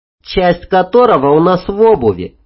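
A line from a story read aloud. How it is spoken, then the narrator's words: Rather snide. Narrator (Russian): довольно ехидно добавила Танька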